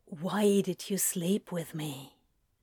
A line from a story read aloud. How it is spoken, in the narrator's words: he whispers